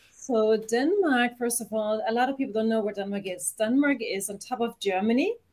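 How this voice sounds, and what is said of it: Danish accent in English. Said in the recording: “obviously you have an accent ... you grew up in Denmark”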